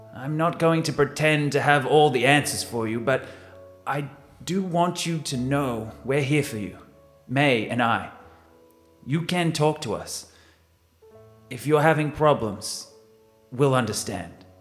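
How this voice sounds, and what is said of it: Put-on accent that keeps shifting. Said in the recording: “With me changing my accent 3 times.”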